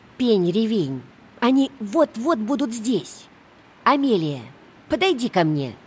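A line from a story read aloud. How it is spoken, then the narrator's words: Stern. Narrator (Russian): сказала она строго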